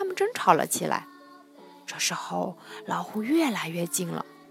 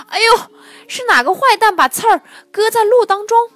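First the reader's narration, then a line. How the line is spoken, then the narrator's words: Voice from below. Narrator (Chinese): 听见脚底下谁在说话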